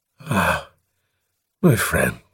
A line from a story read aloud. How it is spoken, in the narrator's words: he groaned